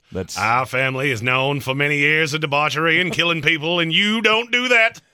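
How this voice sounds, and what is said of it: Put-on New England Kennedy-style accent. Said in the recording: “That's actually not a bad Kenny Bunkport. I love that accent.”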